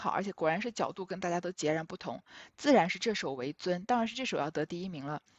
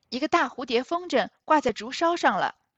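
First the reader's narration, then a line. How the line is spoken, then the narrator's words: Calling from outside. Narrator (Chinese): 帘外丫鬟喊道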